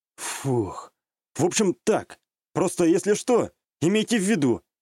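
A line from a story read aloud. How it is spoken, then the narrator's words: Exhaling. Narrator (Russian): выдохнул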